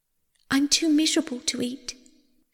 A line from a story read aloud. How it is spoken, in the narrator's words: sobbed Persephone